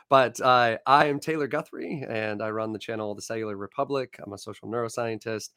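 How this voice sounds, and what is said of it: Hoarse, croaky voice. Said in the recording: “Excuse my voice. I'm getting over laryngitis, so I kind of sound like a frog today.”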